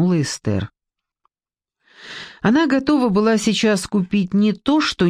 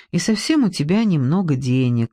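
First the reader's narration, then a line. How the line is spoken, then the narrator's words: Calm objection. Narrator (Russian): спокойно возразила Ксения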